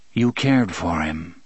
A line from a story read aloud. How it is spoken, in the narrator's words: he said flatly